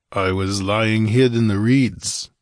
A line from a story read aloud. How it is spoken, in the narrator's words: grunted the barbarian